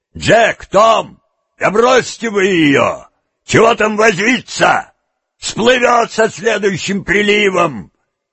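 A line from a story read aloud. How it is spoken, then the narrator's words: Shouted while leaving. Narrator (Russian): один из них, уходя, крикнул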